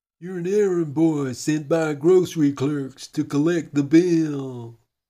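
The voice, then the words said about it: Impression sounding like a cartoon moose. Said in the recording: “Actually, that sounds more like Bullwinkle J. Moose.”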